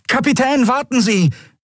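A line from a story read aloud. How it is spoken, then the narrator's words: Called out. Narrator (German): rief er kurz darauf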